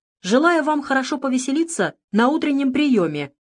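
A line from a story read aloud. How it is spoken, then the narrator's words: Shout bursting into laughter. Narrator (Russian): выкрикнул, неожиданно разразившись смехом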